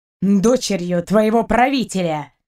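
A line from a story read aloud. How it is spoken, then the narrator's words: Angry reply. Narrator (Russian): сердито отозвался капитан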